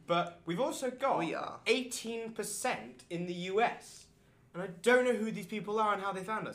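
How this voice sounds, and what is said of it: British accent. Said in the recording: “We're in the UK because you can't tell by my accent.”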